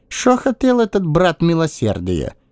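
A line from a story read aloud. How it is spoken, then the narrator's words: Grunt. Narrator (Russian): Я хмыкнул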